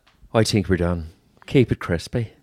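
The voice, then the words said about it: Irish accent. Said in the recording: “I should have done it with an Irish accent. ... Oh, do it. ... Very good. Very, very good.”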